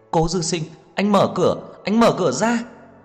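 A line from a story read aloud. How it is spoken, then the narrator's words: Woman screaming. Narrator (Vietnamese): Cô hét lên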